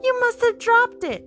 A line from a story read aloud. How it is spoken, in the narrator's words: wailed the first